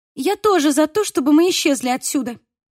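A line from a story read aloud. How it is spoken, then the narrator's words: Sharp. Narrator (Russian): резко сказала Мия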